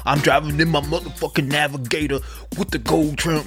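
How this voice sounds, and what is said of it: Imitates a rap song voice. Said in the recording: “my impression.”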